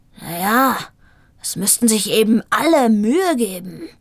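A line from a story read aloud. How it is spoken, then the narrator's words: Growling reply. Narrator (German): knurrte er zurück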